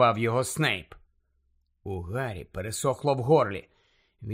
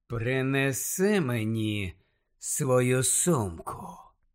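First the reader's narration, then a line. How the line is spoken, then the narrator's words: Silky commanding voice. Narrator (Ukrainian): шовковим голосом звелів Снейп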